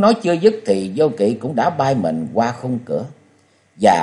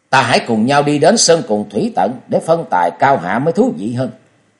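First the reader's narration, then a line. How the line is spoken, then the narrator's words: Shouted. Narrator (Vietnamese): Trương Vô Kỵ quát lên nói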